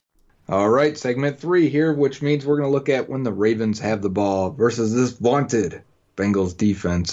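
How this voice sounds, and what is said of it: Sarcastic tone. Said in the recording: “tell I'm being sarcastic”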